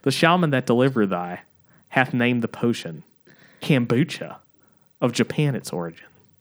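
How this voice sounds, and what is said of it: Put-on Southern accent. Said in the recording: “This is supposed to be in a southern accent.”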